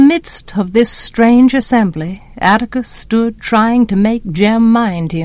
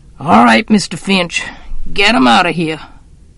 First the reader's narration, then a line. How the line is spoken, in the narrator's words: growled